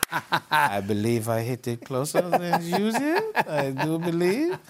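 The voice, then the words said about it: Imitates another person's voice, German accent. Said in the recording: “a little German giggle ... my Bernhard impression is good”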